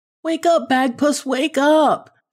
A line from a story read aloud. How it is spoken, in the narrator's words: she begged